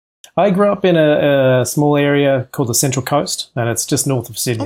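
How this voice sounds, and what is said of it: Australian accent. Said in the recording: “you have an accent ... You're Australian”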